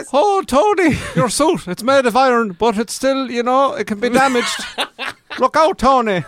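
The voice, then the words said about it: Put-on Irish accent. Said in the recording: “Accent ... she's an Irish actress ... She is actually Irish.”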